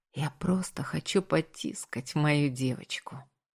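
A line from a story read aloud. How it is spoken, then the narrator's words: Whispered in ear. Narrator (Russian): согласился я, шепнув на ушко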